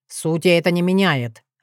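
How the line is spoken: Growled. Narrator (Russian): рыкнул он

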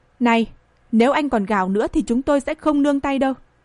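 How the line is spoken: Stern shout. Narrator (Vietnamese): cau mày lại quát

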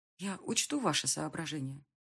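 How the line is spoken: Muttered. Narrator (Russian): пробормотала я

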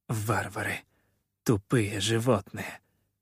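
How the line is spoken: Pained, through clenched teeth. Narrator (Russian): цедила она сквозь зубы, с болью

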